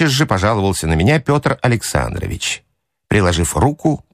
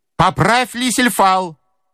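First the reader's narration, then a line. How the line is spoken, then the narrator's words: Menacing shout. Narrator (Russian): закричал грозно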